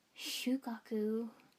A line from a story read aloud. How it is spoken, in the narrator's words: I breathed